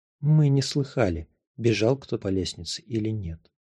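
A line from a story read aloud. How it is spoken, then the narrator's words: Soft. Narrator (Russian): мягко сказала Гелли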